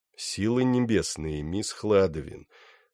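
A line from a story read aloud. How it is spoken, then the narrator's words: Even, soft, beautiful voice. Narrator (Russian): сказал он, наконец, ровным голосом, который звучал еще мягче и прекраснее, чем всегда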